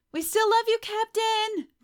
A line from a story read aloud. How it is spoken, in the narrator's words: Jocelyn shouts